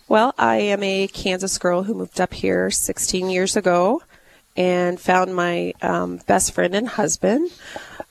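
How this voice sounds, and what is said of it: Voice sounds a little messed up. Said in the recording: “my voice is a little messed up ... this is not the way she normally sounds”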